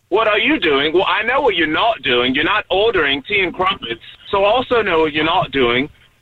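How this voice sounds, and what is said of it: Put-on English accent. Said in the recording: “you showed me this whole accent thing. Stop doing this.”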